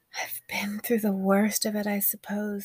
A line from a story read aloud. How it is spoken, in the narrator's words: Oshun sighed